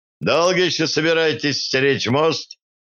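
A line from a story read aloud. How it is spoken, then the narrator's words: Laughing question. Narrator (Russian): смеясь спросил у Рената один из мужчин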